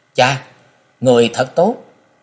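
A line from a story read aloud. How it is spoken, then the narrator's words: High childlike voice. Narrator (Vietnamese): Như một con chim non, bốn người lên cao ba thước ... cao giọng nói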